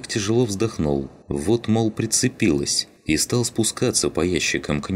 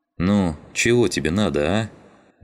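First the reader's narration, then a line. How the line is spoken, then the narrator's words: Displeased grumble. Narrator (Russian): Недовольно проворчал он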